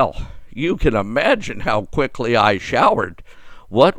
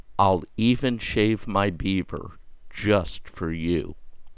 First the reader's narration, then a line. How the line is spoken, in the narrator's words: She then gently whispered in my ear